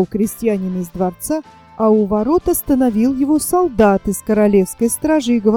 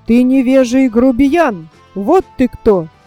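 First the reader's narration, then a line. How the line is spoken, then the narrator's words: Angry shouting. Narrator (Russian): король рассердился и закричал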